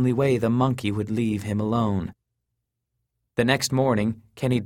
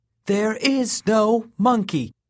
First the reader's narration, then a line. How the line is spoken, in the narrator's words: proclaimed loudly